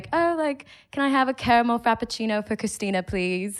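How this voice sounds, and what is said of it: Casual put-on British accent. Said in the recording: “I'll just order in a British accent ... That was a chill English accent. That sounded like you just like lived there for a summer.”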